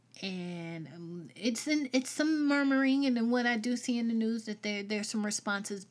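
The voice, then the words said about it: Southern US accent. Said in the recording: “I'm Southern. If you can't hear my accent, I'm Southern.”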